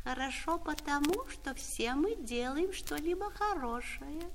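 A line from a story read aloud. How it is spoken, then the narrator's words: Thin little voice. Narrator (Russian): дождевой червяк тоненьким голосом сказал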